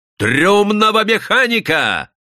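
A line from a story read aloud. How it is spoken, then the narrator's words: Loud shout. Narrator (Russian): во весь голос прокричал державший его человек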